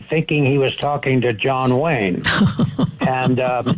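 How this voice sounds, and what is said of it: Usual voice. Nothing is said of it.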